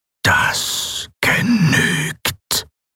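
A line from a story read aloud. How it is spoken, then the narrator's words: Mechanical whisper. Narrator (German): flüsterte die maschinelle Stimme Sylravans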